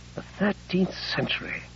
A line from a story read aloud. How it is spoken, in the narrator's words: said wistfully